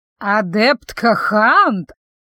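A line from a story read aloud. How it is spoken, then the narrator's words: Creaky voice. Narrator (Russian): проскрипела преподавательница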